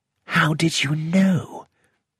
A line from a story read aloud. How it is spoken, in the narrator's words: I whispered to Poirot